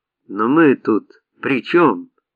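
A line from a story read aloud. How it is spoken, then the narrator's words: Shout. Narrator (Russian): закричал Арон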